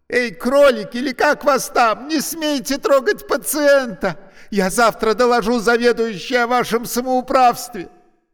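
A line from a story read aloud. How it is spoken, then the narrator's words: Indignant shout. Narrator (Russian): Она возмущенно крикнула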